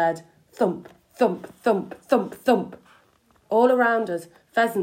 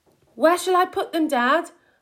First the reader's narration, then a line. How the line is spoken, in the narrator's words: called out